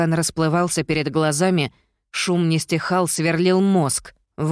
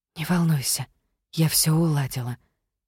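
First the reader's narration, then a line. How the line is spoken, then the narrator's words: Whisper in the ear. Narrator (Russian): прошептала она мне в ухо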